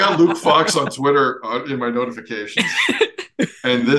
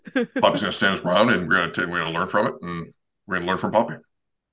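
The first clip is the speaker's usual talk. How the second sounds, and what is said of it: Imitates another person's robotic voice. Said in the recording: “That's a great impression. ... he said it in a robotic sound, voice too.”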